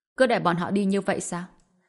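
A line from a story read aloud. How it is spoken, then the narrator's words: Cold. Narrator (Vietnamese): Tùng Lệ Nhã lạnh lùng nói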